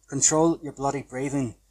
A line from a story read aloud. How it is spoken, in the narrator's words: pleaded my housemate, in exasperation